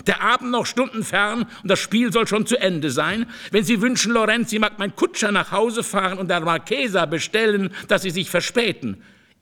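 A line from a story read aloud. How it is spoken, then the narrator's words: Irritated call. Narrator (German): rief der Marchese übel gelaunt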